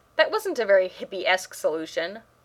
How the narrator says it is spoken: Rodney said

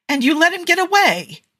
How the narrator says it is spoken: Tony exclaims

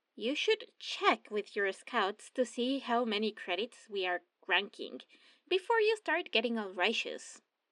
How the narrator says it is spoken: Rex said

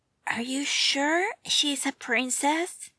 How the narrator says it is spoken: Dick whispered into Bruce's ears

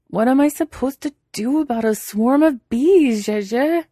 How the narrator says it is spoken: He wails, but not too loud, in case the bees can hear him

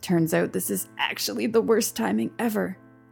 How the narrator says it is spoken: he muttered

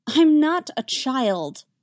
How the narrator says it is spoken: Damien protests, but it lacks his usual vehemence

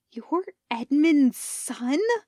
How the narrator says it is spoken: hisses

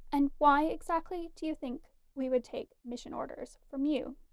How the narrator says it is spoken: Fimor asked stiffly

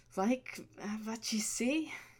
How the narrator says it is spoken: Clavier asked, not quite stifling a frustrated groan

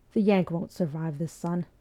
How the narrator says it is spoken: Robert Fraser said quietly

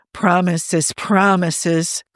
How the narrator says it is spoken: Carl moaned

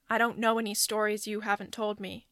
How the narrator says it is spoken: Johnny says, flatly

